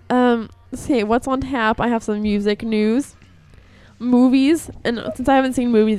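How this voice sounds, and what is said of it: High-pitched, congested sick voice. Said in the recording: “I sound like a little boy before puberty, because I've been sick ... My nose is runny”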